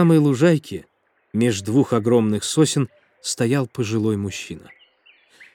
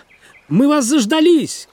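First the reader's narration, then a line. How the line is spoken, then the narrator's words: Shouting. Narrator (Russian): крикнула она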